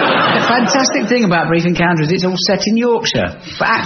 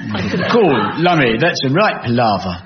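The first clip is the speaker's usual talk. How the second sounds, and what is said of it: Cockney accent, Stanley Holloway impression. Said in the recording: “You could have done the Stanley Holloway part... actors in those days only had one working class accent, and it was Cockaninny”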